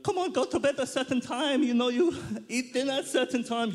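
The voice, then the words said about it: Put-on Greek accent, Super Mario-like. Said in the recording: “my Greek accent does sound like Super Mario”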